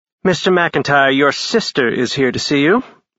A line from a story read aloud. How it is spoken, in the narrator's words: Eleanor, his receptionist, said in a crisp voice that sounded pissed off